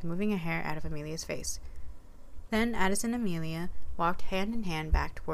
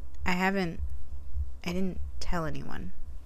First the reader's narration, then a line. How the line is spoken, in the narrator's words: Amelia added quietly